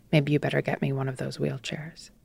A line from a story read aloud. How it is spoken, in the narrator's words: said quietly